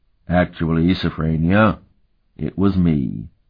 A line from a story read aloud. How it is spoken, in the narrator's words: Euleth drawled